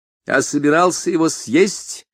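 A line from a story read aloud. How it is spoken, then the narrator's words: Loud and deliberate. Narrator (Russian): сказал он громко и раздельно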